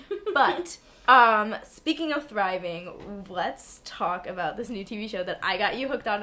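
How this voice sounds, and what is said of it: Hoarse, raspy, partly lost voice. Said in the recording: “My voice is a little weird because I had the flu... So I've kind of lost my voice. I have a horrible, horrible wheezing smoker's cough... sometimes it makes my voice sound really raspy”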